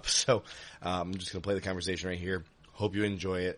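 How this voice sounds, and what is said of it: Sick, failing voice. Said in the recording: “I just can't even talk right now ... my voice just is not going to hold up”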